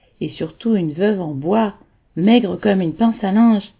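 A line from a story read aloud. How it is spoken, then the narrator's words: Learned, pedantic tone. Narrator (French): intervins d'un ton docte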